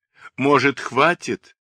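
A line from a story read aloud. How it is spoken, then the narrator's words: Pleading. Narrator (Russian): взмолился я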